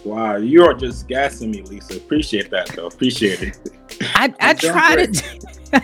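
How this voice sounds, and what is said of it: Nigerian accent. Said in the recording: “I'm hearing an accent. Do I hear an accent? ... I'm actually Nigerian, born and raised”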